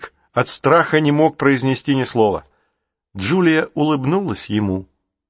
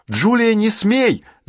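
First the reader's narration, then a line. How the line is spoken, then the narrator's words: Shouting. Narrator (Russian): закричал Джейсон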